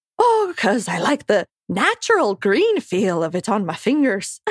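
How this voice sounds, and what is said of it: Put-on pseudo-Irish accent. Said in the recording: “this like weird pseudo-Irish character? ... My impression was so bad ... the accent you'd just done”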